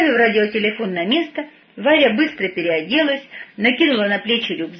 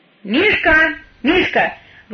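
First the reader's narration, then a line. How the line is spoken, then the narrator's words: Loud, puzzled call. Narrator (Russian): громко позвала Варя, недоумевая, что пса не видно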